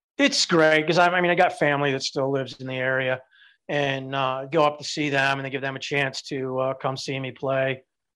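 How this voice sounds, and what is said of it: Chicago accent. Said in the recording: “if people can't tell from your accent”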